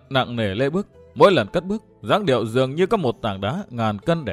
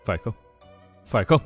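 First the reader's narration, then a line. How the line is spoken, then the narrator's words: Mumbling. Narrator (Vietnamese): Nàng vẫn lẩm bẩm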